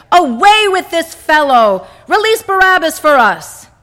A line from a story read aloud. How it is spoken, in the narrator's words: Then the elders all shouted together